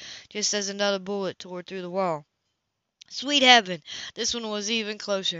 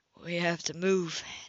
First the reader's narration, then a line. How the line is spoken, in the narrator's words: Nate whispered